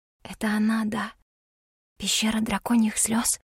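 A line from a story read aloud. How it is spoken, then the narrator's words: Whisper. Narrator (Russian): прошептала я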